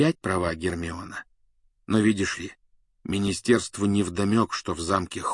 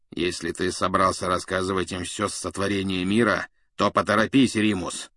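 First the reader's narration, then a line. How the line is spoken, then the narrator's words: Grumble. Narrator (Russian): проворчал Блэк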